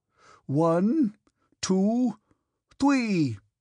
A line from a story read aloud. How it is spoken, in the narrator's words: he shouted angrily